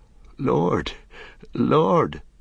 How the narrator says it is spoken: began Merry brokenly

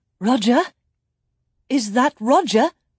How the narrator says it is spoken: she called out

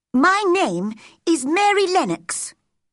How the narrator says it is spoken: she said crossly

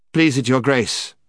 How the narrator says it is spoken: said the prince very coldly and politely

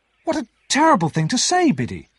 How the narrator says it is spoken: cried

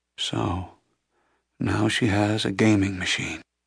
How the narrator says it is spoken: the blind man murmured

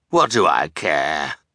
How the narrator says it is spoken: growled, villainous disregard for other people

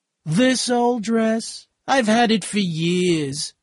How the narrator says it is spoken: Myrtle laughed

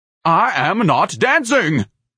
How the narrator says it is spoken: Ignatius barked

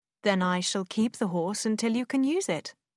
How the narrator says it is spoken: Willoughby said

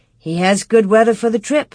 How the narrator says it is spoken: Ma said

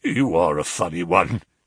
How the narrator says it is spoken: chuckled the inspector

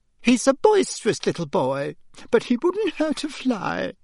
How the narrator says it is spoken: Aunt Petunia had said tearfully

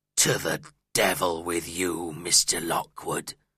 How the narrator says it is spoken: growled my landlord

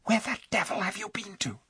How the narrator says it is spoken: said Eustace in a furious whisper, for he had been very frightened

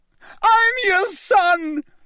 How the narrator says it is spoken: He screamed up at Crouch

